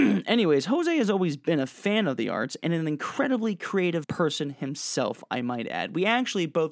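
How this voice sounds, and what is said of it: Usual voice. Nothing is said of it.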